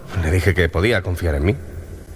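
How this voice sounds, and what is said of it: Deep storyteller narrator voice. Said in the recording (Spanish): “poner voz de narrador ... esa es una voz perfecta de narrador”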